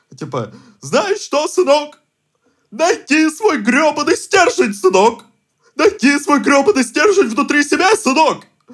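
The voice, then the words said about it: Parody voice in preacher style. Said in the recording (Russian): “самая отвратительная пародия на меня ... я пародирую его как э, чернокожего пастыря”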